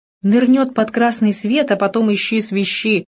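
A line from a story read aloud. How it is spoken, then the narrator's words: Grumbling. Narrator (Russian): проворчал Кувакин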